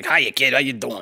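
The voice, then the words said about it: New York construction worker voice. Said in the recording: “gave the voice of a New York construction worker. ... he's got this, like, New Jersey accent.”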